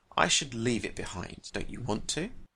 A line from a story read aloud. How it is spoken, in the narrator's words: he said quietly